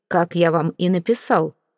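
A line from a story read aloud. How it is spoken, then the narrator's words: Cold. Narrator (Russian): холодно произнес Сезар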